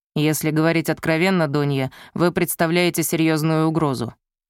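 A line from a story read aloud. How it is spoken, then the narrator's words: Plain. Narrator (Russian): сказал он наконец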